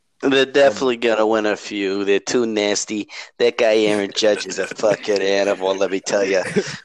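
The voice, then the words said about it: Put-on New York accent. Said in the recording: “Best New York impression I've heard from you in a while.”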